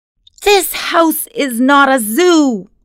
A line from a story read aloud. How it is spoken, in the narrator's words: yelled